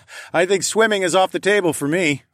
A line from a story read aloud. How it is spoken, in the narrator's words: I laughed